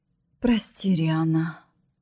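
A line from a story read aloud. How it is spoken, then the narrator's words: Utterly upset exhale. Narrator (Russian): Совершенно расстроенно выдохнула Ветла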